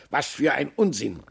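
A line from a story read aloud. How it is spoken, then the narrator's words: Laughing. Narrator (German): lachte der Rabe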